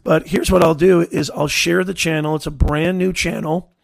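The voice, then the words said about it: Hoarse voice. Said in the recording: “That's probably why I'm hoarse. ... Honey, lemon, Ricola.”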